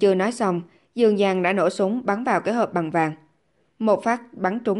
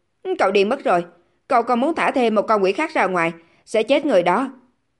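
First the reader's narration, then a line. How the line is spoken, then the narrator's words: Shouting, losing composure. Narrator (Vietnamese): Trương Nhất Minh là một người trầm ổn, nhưng hiện tại anh ta cũng không nhịn được phải hét lên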